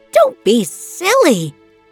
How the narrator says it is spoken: the dressmaker replied angrily

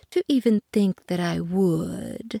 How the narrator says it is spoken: purred the cat

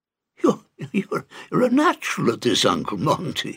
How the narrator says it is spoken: laughed Douglas

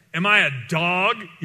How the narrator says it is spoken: he roared at David

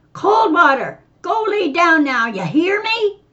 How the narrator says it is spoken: the old man shouted

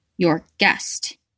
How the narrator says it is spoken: she hissed

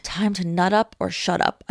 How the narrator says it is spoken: whispered

